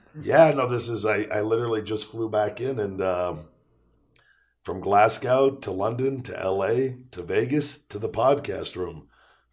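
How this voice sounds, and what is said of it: Hoarse voice. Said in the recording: “My voice is extremely hoarse, so I apologize from screaming Feed Me More overseas.”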